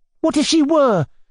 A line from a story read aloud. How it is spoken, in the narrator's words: cried Nelly